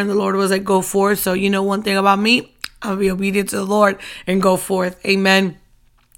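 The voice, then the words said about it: Strained, worn-out voice. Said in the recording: “as you can hear also, my voice is still not up to par ... I have not rested my voice”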